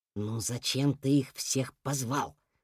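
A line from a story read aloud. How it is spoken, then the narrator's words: Whisper. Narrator (Russian): прошептал он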